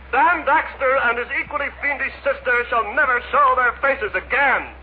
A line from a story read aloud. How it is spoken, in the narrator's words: Tom cried